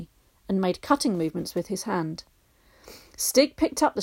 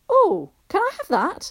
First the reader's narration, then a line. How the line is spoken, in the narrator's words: exclaimed Barney